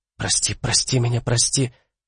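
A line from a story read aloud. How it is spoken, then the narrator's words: Whisper. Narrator (Russian): Виста Эртис принялась шептать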